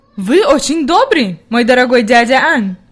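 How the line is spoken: Grandmother's exclamation. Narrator (Russian): воскликнула бабушка

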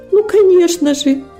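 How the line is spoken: Timid exclamation. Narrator (Russian): воскликнула робость

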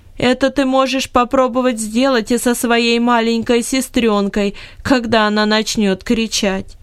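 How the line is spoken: Said after loud laugh. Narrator (Russian): громко рассмеялась и сказала

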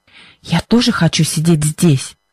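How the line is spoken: Whispered reply. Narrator (Russian): шепотом ответила Либби

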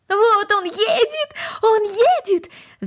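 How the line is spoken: Shouted. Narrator (Russian): закричала Корнели

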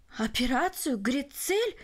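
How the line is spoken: Exclaimed. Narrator (Russian): воскликнул Барелл

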